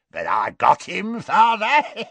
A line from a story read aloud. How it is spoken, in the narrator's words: cackled Morfin